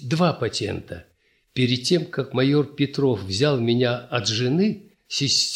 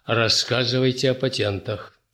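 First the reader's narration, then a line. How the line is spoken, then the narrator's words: Stern, after clearing throat. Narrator (Russian): прокашляв, он опять тем же суровым тоном сказал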